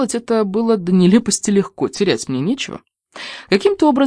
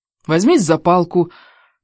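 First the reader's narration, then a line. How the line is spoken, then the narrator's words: Irritated command. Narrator (Russian): довольно раздраженно велел голос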